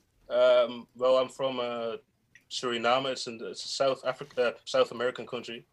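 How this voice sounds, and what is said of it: Slightly British-sounding accent. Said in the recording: “are you British ... I've had some roots in England, so that's maybe the accent.”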